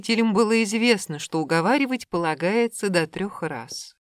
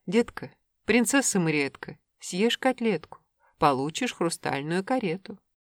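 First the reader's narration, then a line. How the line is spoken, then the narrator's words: Speaking in unison. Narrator (Russian): Родители печально переглянулись и сказали в один голос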